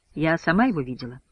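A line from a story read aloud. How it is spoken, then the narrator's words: Calm answer. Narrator (Russian): спокойно отвечает бортпроводница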